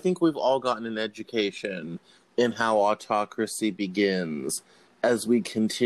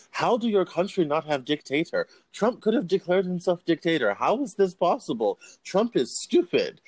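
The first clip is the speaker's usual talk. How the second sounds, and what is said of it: Thick put-on Russian accent. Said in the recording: “thick Russian accent.”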